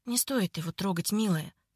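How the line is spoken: Whispering in ear. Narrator (Russian): зашептал он Соне на ухо

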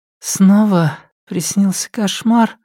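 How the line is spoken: Sleepy question. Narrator (Russian): спросила Линдан сонным голосом

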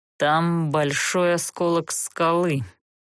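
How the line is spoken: Gloomy tone. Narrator (Russian): мрачно сообщил он Герту

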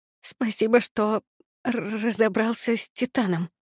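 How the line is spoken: Whisper. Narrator (Russian): прошептала я

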